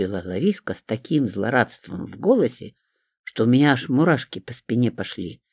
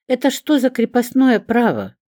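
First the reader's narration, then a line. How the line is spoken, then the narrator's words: Joyless laugh. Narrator (Russian): невесело рассмеялась я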